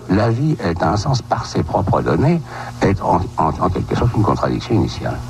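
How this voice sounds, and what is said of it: Old-fashioned French accent. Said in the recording (French): “ce bel accent, effectivement, ... de l'époque”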